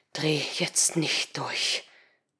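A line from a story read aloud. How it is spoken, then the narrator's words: Male hiss. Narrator (German): zischte er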